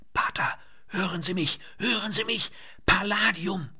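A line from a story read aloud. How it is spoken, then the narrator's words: Panting into microphone. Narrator (German): keuchte er das Stichwort in das Mikrofon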